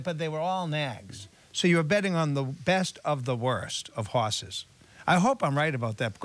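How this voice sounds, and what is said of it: Heavy Boston accent. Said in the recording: “these guys have the heaviest Boston accents in the world”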